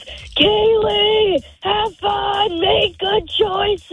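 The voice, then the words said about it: Loud shouted imitation of a parent. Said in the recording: “Can you do an impression of your mom or dad? Let's hear it nice and loud. ... he always gets out of the car and screams”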